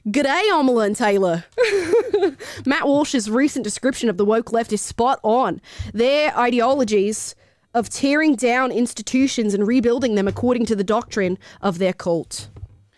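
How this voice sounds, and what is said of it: Put-on Australian accent, not great. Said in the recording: “you got to read that in Australian accent ... My Australian boyfriend's going to tell me that was not great ... I have a feeling he's going to say that was wrong”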